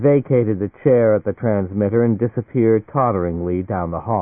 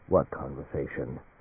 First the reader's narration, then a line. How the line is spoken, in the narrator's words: Coldly, Alan Fane said